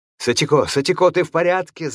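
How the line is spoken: Shouting. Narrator (Russian): закричал хозяин

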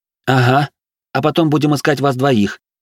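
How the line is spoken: Grumbling mutter. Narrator (Russian): буркнула Вероника

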